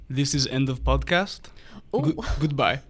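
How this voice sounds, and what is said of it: Put-on accent for a sign-off. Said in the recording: “your best impersonation or character to sign off the podcast ... what my accent's going to be”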